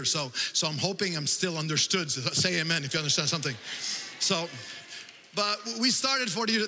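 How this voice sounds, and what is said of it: French accent in English. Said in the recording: “That's why you detect an accent sometimes. My first language is French.”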